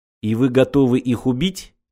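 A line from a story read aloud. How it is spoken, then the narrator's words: Quiet question. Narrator (Russian): тихо спросил еврей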